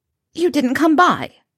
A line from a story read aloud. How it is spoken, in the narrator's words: Pansy snapped